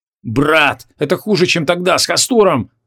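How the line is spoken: Exclaiming. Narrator (Russian): воскликнул Шамшудин

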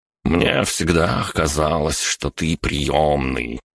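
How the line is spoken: Condescending drawl. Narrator (Russian): снисходительно протянул Борис

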